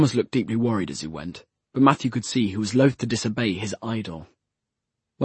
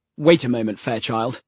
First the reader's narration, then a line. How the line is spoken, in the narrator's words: snapped Alistair